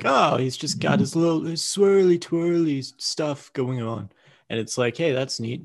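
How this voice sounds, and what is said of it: Bad imitation of another person's voice. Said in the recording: “a bad impression of Paul McCartney”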